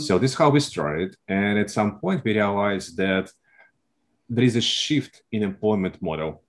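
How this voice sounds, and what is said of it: Russian accent. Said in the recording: “I am originally from Russia, as you can tell from my accent.”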